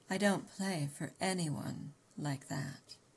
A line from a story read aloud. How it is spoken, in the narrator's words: he murmured, his lips lingering over the words